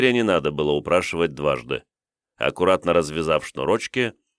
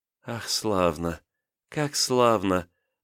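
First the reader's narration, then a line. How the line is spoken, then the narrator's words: Whispered. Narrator (Russian): прошептала княгиня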